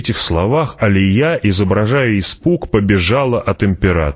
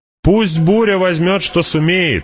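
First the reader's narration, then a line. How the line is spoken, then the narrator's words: Shouted. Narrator (Russian): закричала она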